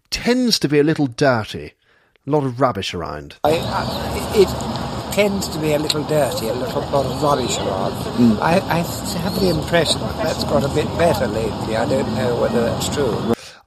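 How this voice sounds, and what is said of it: Posh English accent. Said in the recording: “You hear that posh accent?”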